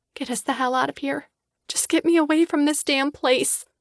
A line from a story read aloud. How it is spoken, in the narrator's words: I whisper